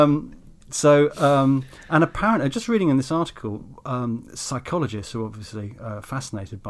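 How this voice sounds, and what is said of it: Usual voice. Nothing is said of it.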